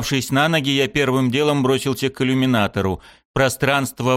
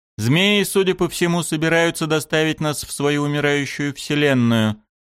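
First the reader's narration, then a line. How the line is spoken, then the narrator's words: Gloomy. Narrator (Russian): мрачно произнес Корус Кан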